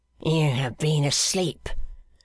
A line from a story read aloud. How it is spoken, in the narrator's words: snarled Jeremiah